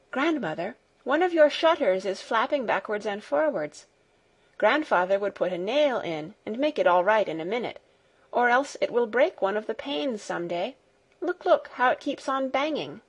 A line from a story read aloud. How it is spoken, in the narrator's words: All of a sudden she exclaimed